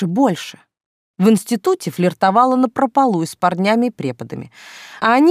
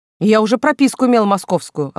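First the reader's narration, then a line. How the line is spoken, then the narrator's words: Snapping retort. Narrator (Russian): огрызнулась Хобякова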